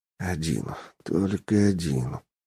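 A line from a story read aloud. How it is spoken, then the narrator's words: Relieved whisper. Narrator (Russian): прошептал с кощунственным облегчением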